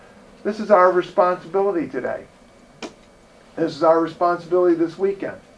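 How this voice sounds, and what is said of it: Usual voice. Nothing is said of it.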